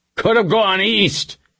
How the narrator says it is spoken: he shouted

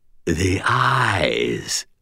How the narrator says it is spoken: rasped the voice

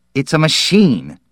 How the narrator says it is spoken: Perrine said excitedly

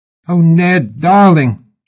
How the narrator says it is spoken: she yelped suddenly

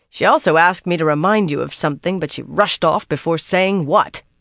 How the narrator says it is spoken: She finished with a snort

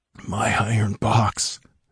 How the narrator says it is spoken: mumbled Xerathus in delirious, disjointed phrases

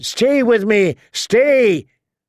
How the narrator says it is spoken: he shouted

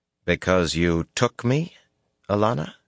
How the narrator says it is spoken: He said coldly

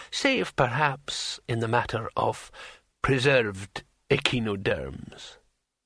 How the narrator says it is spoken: said the old man calmly

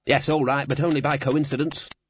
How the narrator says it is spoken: said the Dean testily

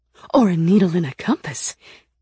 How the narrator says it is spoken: Rena said excitedly

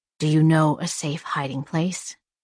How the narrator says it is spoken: she whispered

